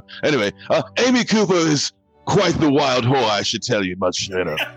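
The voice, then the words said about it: Put-on British accent. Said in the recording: “I have a British accent because I'm a dog from Britain”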